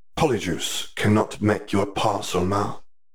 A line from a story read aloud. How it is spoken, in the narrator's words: He hissed pointedly, then said